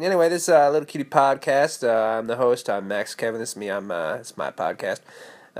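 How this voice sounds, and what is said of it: Congested, blocked-nose voice. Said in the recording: “my allergies are uh, are uh, really uh, really strong today... my left nostril is completely blocked... can't breathe through my nose at all, and so this kind of affects my voice”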